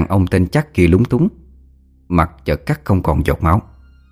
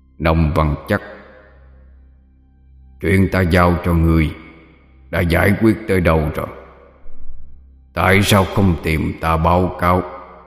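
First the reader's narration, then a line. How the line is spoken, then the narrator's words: Hoarse ghostly voice. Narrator (Vietnamese): Con quỷ ... cất giọng khàn khàn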